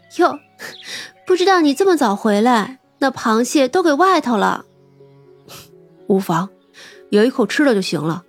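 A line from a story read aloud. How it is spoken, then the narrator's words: Laughing. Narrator (Chinese): 三娘笑道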